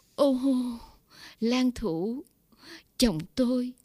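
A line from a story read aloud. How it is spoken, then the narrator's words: Crying out. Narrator (Vietnamese): Bà cả kêu lên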